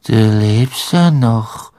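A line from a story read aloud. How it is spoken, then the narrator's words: Toneless voice. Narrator (German): sagte sie mit tonloser Stimme zu Harry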